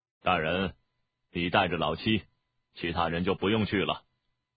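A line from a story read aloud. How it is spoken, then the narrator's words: Flat, calm. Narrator (Chinese): 田不易淡淡地说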